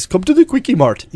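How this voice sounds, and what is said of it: Imitates a cartoon character's accent. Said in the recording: “Apu talks like this ... And a great accent.”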